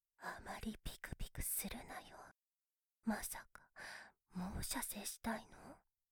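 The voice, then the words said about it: Whispering close to the ear. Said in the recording (Japanese): “耳元でささやき続けてあげる”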